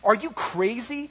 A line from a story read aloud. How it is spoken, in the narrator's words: sneered the other